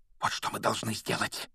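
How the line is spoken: Fervent whisper. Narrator (Russian): горячо прошептал он

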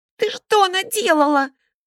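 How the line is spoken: Indignant shout. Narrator (Russian): возмущенно закричал

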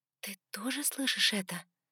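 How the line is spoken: Quiet question. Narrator (Russian): тихо спросила

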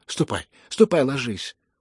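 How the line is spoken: Frightened shout. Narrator (Russian): испуганно крикнула Лизавета Прокофьевна

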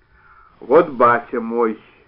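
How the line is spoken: Deep voice from doorway. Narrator (Russian): от двери густым голосом представил Степанов

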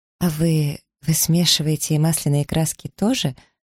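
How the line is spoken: Timid question. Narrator (Russian): робко спросила

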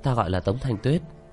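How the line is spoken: Gentle, smiling woman. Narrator (Vietnamese): nàng nhẹ nhàng cười

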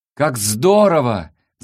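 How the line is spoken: Delighted shout. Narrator (Russian): закричала Антипия, увидев радугу

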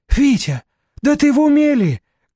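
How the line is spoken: Shouting. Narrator (Russian): кричала соседка

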